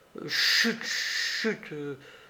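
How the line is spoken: Reproachful murmur. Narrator (French): murmura le jeune homme d'un ton de reproche

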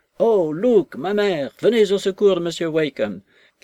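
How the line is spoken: Tearful shout. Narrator (French): cria Maggie en pleurs

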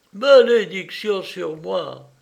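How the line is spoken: Old woman's sudden exclamation. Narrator (French): s'écria tout à coup la vieille

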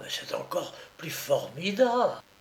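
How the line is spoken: Whispered. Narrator (French): chuchota

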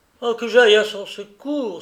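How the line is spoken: Exclaimed. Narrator (French): s'écria-t-il

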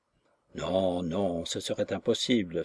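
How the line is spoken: With conviction. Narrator (French): fit le docteur avec conviction

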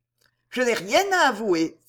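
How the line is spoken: Indignant exclamation. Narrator (French): s'écria Gertrude en se redressant d'un air indigné

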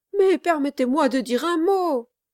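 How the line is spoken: Pleading exclamation. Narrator (French): s'écria Kit, d'un air de supplication

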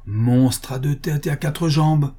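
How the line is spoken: Exclaiming. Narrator (French): s'écria-t-elle

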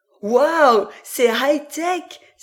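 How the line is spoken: Exclaiming. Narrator (French): s'exclama Lorelai

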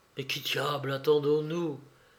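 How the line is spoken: Murmured. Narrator (French): murmura Béchou

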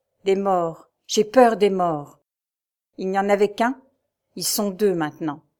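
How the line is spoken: Somber voice. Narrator (French): répondit d'une voix sombre

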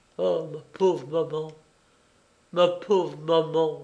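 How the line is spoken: Stammered. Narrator (French): bégaya-t-il

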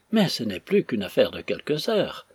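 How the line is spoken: Cheerful, consoling tone. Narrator (French): remarqua Clenham d'un ton de gaieté consolante

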